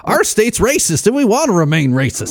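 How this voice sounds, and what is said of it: Bad put-on Southern US accent. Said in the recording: “doing some sort of bad Southern accent there”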